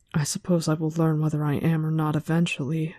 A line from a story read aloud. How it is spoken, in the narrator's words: Egwene mumbled